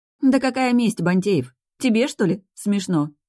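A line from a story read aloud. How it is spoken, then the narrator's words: Sighing. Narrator (Russian): Вздохнула я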